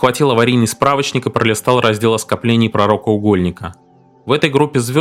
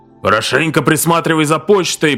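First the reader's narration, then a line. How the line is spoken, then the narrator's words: Long drawn-out shout. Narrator (Russian): протяжно прокричал в ответ почтмейстер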